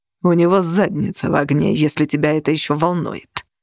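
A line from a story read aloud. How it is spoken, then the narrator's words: Icy reply. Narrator (Russian): ледяным тоном ответствовал нигер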